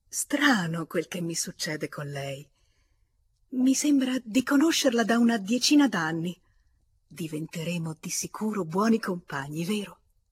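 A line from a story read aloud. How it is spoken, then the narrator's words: Astonished exclamation. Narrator (Italian): tutta stupita esclamò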